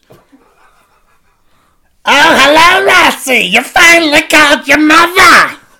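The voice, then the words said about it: Put-on New York accent, mother character. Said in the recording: “New Yorker. ... Are you Jewish? ... I don't know how long the accent will keep up.”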